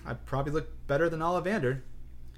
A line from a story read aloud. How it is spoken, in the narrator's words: said Harry shakily